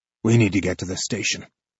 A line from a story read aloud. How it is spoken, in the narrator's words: he says quietly